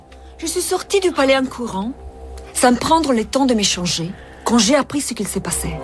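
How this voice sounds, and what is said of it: Italian accent speaking French. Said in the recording (French): “La seule reine d'Égypte avec un accent italien.”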